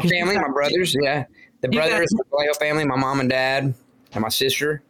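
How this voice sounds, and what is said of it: Alabama-acquired Southern accent. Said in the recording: “We lived in Alabama. That's where I got stuck with this accent.”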